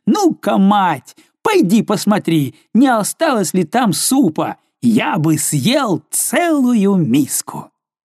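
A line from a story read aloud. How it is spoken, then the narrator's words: Loud laughing shout. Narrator (Russian): все еще смеясь, он крикнул ей, словно она была глухая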